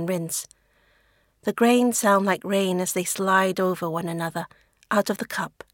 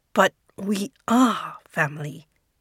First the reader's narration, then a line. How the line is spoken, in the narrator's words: he hisses back